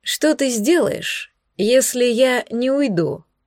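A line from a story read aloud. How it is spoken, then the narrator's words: Calm inquiry. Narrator (Russian): поинтересовался Десмонд спокойно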